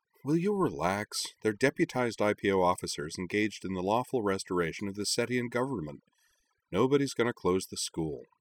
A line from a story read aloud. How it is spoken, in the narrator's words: With a sigh, Kaname told her